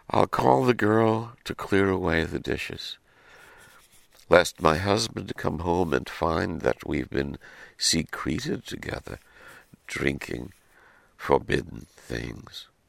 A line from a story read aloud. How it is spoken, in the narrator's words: said with a sigh